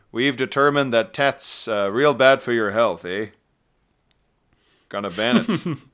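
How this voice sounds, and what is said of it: Generic Canadian accent ending in eh. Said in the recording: “my attempt at a, essentially a very generic accent that could really be from anywhere until I said A at the end... it could have been Minnesota... It would be fingernails on a blackboard to any actual North Americans”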